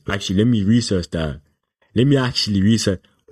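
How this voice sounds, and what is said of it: Put-on British accent, deeper voice. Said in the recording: “Why did I go British? To have a deep voice.”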